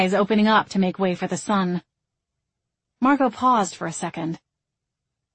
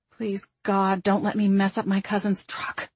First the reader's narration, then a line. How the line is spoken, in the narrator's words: she muttered